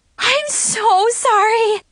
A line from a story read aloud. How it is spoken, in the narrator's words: she gasped, totally embarrassed